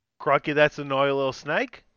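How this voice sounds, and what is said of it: Put-on Australian accent. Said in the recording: “you can do Australian ... accent”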